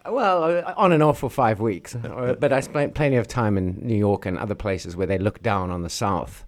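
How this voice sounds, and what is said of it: Mild South African accent. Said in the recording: “your already dilute South African accent”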